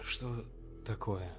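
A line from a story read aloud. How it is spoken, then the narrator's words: Muttered. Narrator (Russian): пробормотал Шептун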